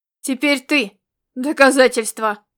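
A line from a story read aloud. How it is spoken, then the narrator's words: Thundering. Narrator (Russian): прогремел Ирвинг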